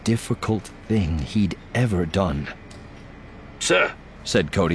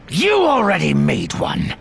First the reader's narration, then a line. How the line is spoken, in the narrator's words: Desh snapped